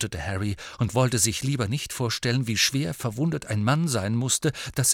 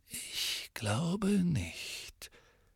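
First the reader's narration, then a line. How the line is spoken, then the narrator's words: Quiet. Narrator (German): sagte Dumbledore leise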